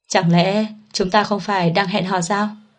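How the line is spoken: Sighing, resigned. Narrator (Vietnamese): Mạnh Tư Thành nhìn tình trạng này thở dài, nói

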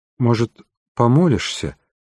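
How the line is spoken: Man suggesting uncertainly. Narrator (Russian): неуверенно предложил мужчина

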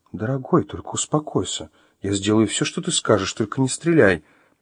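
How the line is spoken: Quiet, soothing. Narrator (Russian): Стараясь его не волновать, Вероника тихо произнесла

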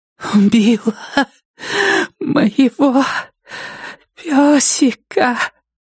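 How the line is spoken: Breathless exhalation. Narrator (Russian): выдохнула Нетти

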